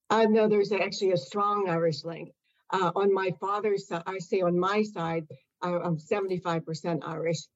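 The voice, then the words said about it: American accent. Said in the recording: “an American accent”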